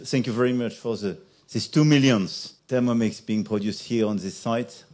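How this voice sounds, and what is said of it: English with a French accent. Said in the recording (German): “diesen französischen Akzent”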